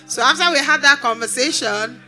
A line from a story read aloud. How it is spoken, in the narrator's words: I laughed